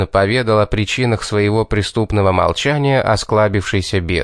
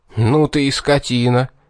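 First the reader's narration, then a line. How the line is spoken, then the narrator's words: Stunned exhale. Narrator (Russian): пораженно выдохнул я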